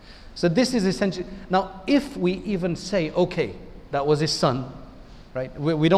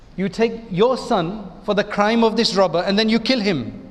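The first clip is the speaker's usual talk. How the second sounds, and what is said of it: Imitated South African accent. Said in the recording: “in his South African accent”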